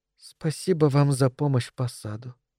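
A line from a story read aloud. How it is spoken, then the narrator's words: Soft. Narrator (Russian): сказала она тихо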